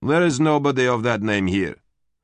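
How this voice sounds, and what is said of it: Male voice, heavy Slavic accent. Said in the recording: “a male voice asked, a heavy Slav accent”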